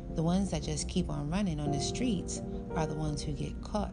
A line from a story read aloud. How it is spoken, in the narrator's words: she said calmly